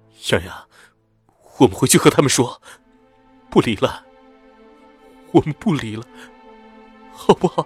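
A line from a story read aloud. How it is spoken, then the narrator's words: Sobbing heavily. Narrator (Chinese): 我的眼泪忍不住滚了下来，在顾军的怀里哭了个稀里哗啦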